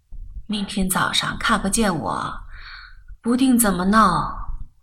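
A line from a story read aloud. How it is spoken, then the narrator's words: Sighing. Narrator (Chinese): 她叹口气说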